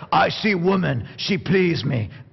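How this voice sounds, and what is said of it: Caveman-style broken speech. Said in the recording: “you almost have to say it with a caveman accent”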